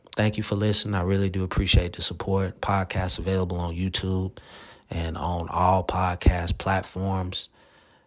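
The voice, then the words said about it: Monotone, flat speaking voice. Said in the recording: “my monotone voice”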